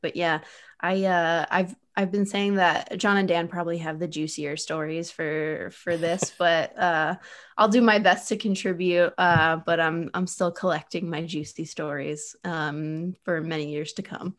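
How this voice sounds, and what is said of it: Polished, dominant podcast-style voice. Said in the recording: “I forgot how good ... podcast voice is... It's elite... dominant podcast voices”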